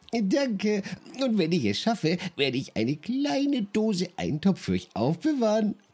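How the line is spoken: Promise with a giggle. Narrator (German): versprach Ejo und kicherte dabei

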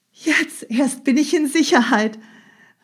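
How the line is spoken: Countess calling out. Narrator (German): rief die Gräfin

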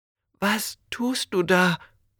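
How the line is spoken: Whisper. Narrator (German): flüsterte er

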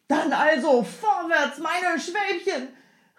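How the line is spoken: Called out. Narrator (German): rief der Mann

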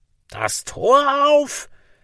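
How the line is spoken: Shout, voice nearly failing. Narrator (German): schrie der Nasenstern, und die Stimme versagte ihm fast

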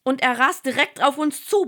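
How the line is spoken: Roaring, yelling again. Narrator (German): brüllt und schrie noch einmal

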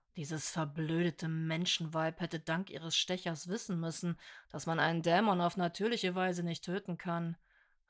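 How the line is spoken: Quiet murmur. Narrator (German): raunte leise

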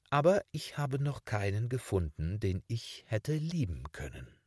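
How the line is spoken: Calm female voice. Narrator (German): sagte sie ruhig

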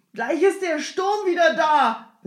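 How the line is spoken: Resuming speaking. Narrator (German): begann der Jemschik abermals

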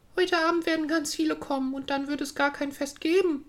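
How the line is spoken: Sobbing sadly. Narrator (German): schluchzte traurig

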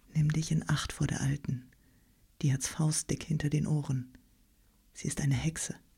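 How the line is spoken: Quiet speech. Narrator (German): wenn ein Vater mit seinem Knaben an ihr vorüberging, so sprach er leise zu ihm

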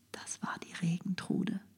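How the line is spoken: Whispering. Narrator (German): flüsterten Braut und Bräutigam

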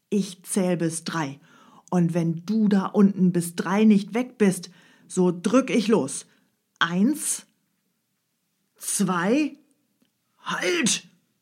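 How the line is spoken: Thunderous shouting. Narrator (German): schrie der Räuber mit donnernder Stimme

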